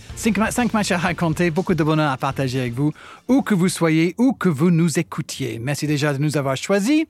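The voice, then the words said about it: British accent speaking French. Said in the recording (French): “ton accent. Depuis le temps que tu es en France, tu le travailles ton accent, tu le fais exprès. ... De British One.”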